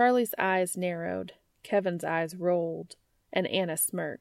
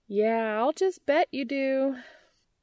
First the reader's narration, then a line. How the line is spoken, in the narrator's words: sniped the latter with a sigh